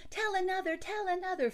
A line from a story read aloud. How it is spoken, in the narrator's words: the children clapped their hands and cried